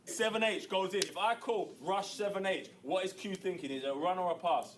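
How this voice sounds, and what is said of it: English accent. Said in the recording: “You said that with an English accent.”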